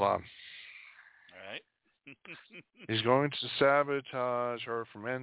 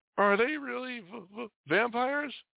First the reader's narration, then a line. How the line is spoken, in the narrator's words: their terrifying appearance leads Hale to stammer